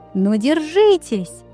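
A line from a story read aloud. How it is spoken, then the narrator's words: Loudest shouting. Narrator (Russian): громче всех кричала Лалита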